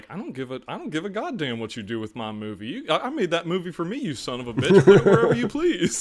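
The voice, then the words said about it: Billy Bob Thornton impression. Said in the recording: “excellent impersonation ... Yeah, that was pretty good. ... That was very good.”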